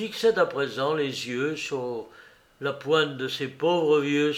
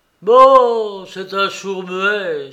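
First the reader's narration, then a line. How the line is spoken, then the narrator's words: Exclamation. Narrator (French): s'exclama Jean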